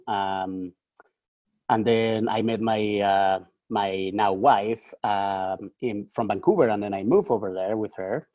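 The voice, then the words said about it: Mexican accent in English. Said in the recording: “I'm Mexican ... my accent, probably you didn't probably notice my accent. So I'm Mexican.”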